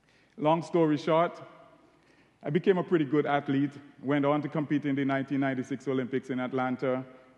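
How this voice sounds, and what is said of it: Caribbean accent. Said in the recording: “my Caribbean accent”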